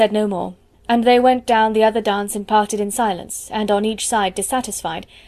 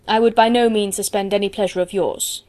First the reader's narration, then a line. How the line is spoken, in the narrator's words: he coldly replied